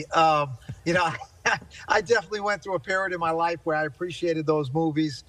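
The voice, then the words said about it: Strong Italian-American accent. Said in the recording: “If you want to hear what an Italian accent sounds like ... Sounds like a mob boss.”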